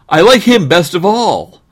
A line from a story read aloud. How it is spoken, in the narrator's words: cried the boy